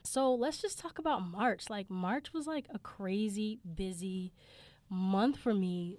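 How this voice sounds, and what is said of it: Hoarse voice from a cold. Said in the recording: “this is like my third cold, so excuse my voice, I sound a little hoarse”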